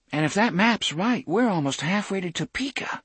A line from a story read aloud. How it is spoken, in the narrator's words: Susanna said in a tight voice